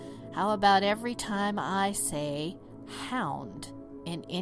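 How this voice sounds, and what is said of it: Usual voice. Nothing is said of it.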